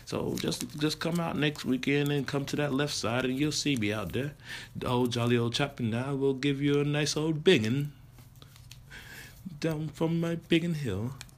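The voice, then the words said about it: Put-on English accent. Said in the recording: “I know you like my English accent”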